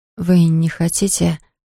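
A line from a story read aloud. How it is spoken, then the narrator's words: Mumbled. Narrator (Russian): пробормотала она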